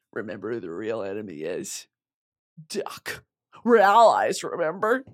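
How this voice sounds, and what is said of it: Impression of Finnick from Hunger Games. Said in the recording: “That was my Finnick impression from Hunger Games. Both of those were Hunger Games impressions.”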